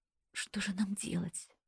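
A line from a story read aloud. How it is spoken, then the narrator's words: Tearful whisper. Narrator (Russian): прошептала, глядя затуманенными от слез глазами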